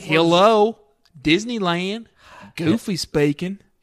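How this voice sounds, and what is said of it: Put-on Southern drawl. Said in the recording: “let me do it in my southern drawl”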